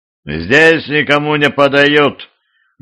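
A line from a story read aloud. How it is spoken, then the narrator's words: Rude gatekeeper. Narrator (Russian): грубо сообщил привратник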